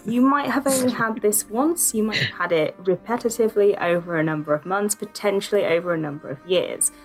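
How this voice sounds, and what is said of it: Yorkshire accent. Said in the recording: “In a Yorkshire accent. ... Technically, I have a Yorkshire accent”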